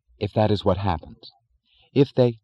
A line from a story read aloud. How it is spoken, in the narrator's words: she said firmly